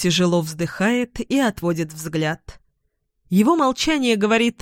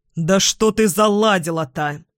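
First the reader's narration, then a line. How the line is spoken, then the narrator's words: Irritated snapping. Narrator (Russian): раздраженно огрызается Игорь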